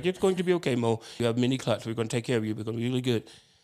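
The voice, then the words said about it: Imitates another person's accent. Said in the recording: “I'm doing his accent.”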